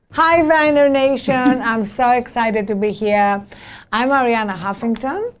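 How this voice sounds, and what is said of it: Greek accent. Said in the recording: “As you can hear from my accent, I was not born in this country. I was born in Greece.”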